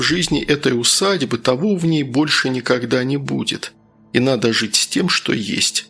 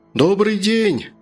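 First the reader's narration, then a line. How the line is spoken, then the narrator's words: Shouting into fog. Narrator (Russian): крикнул доктор в туман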